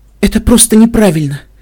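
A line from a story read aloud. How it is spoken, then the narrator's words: Muffled sobbing. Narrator (Russian): всхлипывала Вельвет Ремеди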